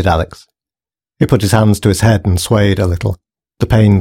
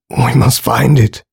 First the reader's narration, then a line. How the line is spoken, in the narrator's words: he whimpered quietly to himself